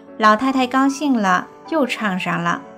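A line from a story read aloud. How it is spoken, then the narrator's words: Laughing. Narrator (Chinese): 大姑子笑着对我说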